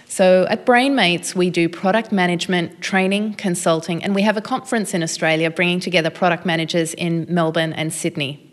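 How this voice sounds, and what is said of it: Distinct Australian accent. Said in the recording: “you have a distinct accent or something. We don't get a lot of Australian guests”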